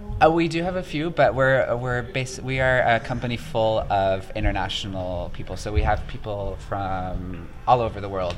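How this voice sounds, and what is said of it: American accent. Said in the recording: “Excuse my American accent ... I did detect an American accent.”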